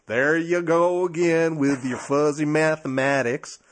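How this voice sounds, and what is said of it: Southern-accented imitation of a politician. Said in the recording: “a Southern accent does make sense in that case”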